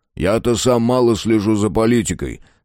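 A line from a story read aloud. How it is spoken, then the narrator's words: Calm. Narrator (Russian): сказал король, спокойно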